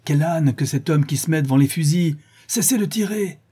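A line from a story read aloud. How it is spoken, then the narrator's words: Shouting at full force. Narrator (French): cria-t-il de toute la force de ses poumons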